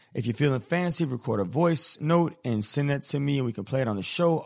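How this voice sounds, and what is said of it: Scratchy, sick-sounding voice. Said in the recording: “My bad for my voice. I know it's super scratchy. I'm getting kind of sick right now ... my voice sounds this way is because I got a little sickness going on”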